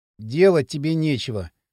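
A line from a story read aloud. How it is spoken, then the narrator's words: Sigh. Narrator (Russian): вздохнул Кирилл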